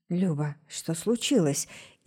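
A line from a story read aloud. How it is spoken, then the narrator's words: Frightened hoarse voice. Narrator (Russian): испуганно сипит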